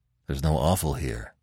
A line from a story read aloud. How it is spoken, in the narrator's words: grunted Conan